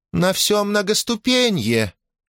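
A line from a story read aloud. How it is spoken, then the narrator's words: Bell-like girlish voice. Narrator (Russian): колокольчиковым девичьим голоском зазвенел прекраснолицый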